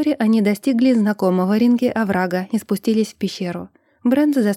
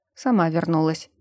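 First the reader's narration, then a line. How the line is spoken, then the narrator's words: Grumbling. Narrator (Russian): проворчал Брент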